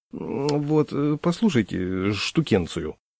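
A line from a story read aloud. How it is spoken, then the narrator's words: Embarrassed mumbling. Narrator (Russian): конфузливо бормотал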